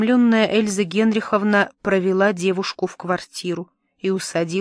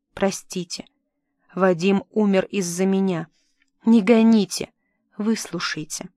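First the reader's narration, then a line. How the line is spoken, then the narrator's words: Whisper. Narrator (Russian): Кира прошептала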